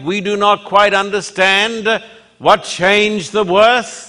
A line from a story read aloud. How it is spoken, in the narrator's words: the man replied